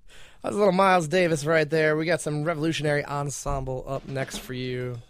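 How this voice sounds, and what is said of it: Radio DJ voice. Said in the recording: “I can't seem to shake my DJ voice tonight”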